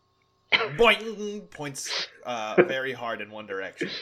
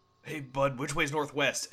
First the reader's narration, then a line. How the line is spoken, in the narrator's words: I whisper